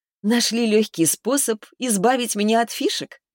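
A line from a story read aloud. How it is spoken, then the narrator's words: Laughing. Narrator (Russian): рассмеялась я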